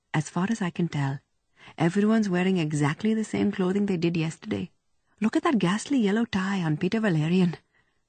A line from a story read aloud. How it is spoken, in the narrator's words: Davy said quietly to Ellie